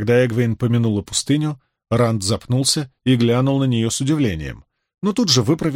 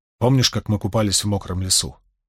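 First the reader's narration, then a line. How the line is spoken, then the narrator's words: Sudden quiet question. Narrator (Russian): неожиданно спросил он тихим голосом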